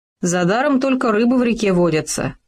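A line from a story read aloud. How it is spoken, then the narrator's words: Wry snort. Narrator (Russian): хмыкнул Хома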